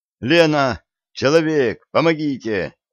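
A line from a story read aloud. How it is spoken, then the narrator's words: Shouting. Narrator (Russian): крикнул Коля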